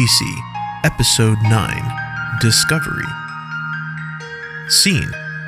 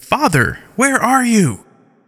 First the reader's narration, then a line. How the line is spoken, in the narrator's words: In a shouting voice, she says